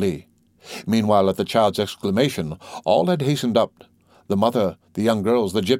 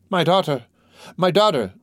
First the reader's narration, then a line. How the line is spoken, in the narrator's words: cried the terrified mother